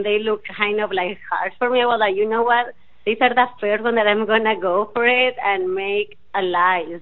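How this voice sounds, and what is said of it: Non-native English accent. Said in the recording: “are you still making fun of my accent?”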